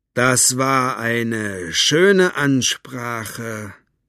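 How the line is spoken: Slow. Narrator (German): sagte Capricorn langsam

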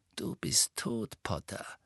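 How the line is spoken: Quiet voice. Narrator (German): sagte mit leiser Stimme

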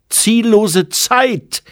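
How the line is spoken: Calling out. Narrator (German): rief

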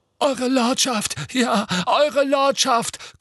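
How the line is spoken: Hoarse relieved gasping. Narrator (German): keuchte Rookwood mit vor Erleichterung heiserer Stimme

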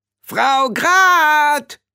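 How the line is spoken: Shouting. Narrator (German): schrie Rob irgendwer

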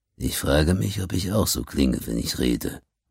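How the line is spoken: Murmuring. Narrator (German): murmelte Jetanyan

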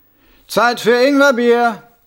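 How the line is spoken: Called out. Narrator (German): rief jemand

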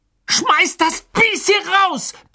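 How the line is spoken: Bellowing. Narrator (German): brüllte Ron

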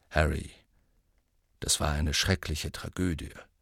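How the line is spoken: Said quietly. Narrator (German): sagte Scrimgeour leise

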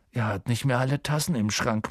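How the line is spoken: Murmured aside. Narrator (German): murmelte Ron in Harrys Ohr

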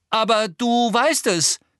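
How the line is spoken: Calling out. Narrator (German): rief Harry

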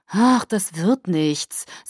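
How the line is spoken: Sighing. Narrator (German): sagte nach einer Weile und seufzte

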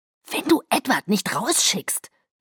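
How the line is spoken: Threatening hiss. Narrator (German): zischte Emma drohend

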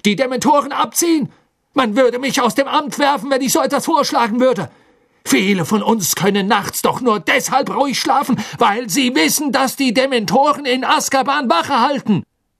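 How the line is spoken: Calling out again. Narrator (German): rief Fudge erneut

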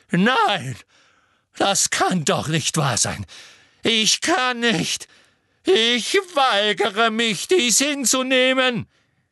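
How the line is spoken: Shrieked. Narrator (German): kreischte sie

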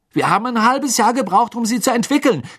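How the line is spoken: Angry shouting. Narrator (German): schrie Fred seine Mutter an

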